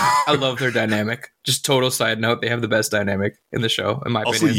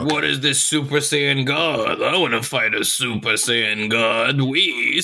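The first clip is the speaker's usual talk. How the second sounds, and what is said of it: Spot-on Beerus impression. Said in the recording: “a very good Beerus impression ... It's like spot on.”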